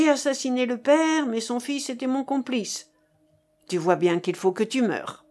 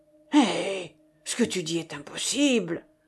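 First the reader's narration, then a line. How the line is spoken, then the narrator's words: Low rumbling growl. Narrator (French): gronda sourdement Pont-Marie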